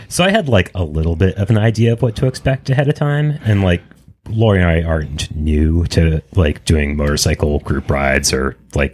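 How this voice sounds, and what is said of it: Smooth radio-style voice. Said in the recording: “You have such a good radio voice.”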